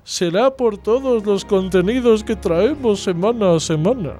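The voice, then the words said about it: Silly, ridiculous put-on voice. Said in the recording (Spanish): “Voy a poner la voz de sepia ... ¿Lo hacemos con voz así en plan ridículo?”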